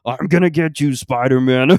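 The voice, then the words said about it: Imitates another person's voice. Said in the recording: “I know that's probably not the greatest Seth Rogen ... doing a Seth Rogen impression”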